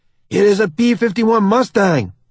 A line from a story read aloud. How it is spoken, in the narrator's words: Lieutenant Morales exclaims